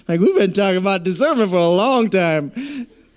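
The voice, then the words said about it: Imitates another person's voice. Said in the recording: “That's my Eddie Murphy accent, I guess. I didn't think I was doing any more accents”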